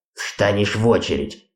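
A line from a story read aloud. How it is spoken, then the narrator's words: Grumbling. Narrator (Russian): проворчал предводитель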